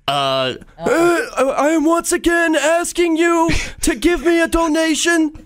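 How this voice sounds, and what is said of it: Imitates another person's voice. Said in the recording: “your Bernie impression”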